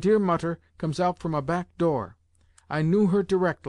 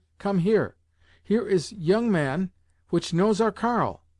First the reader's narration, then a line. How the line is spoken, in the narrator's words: exclaimed my vater